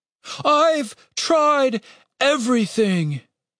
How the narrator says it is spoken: it said, the words broken by a yawn

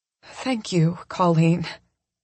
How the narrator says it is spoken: I say, my voice husky with emotion

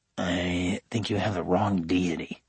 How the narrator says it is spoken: I muttered

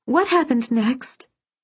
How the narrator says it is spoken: Serafina pleaded

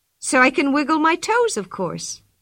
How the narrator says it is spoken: she answered

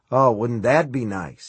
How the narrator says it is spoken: he said, and came with a small, cynical laugh

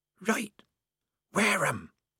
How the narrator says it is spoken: said the mystery voice hoarsely

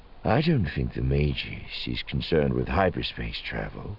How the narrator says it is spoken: Thrawn said, his voice going darker

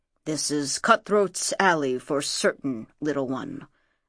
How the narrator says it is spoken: muttered Nekank

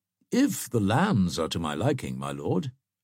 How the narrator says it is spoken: answered Bracy

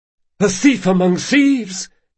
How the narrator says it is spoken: gasped Tesso

